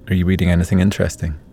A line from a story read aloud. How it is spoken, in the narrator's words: asked